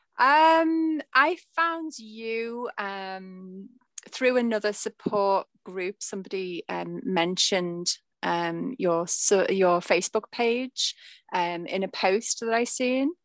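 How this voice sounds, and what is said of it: A cute little accent. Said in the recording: “your cute little accent”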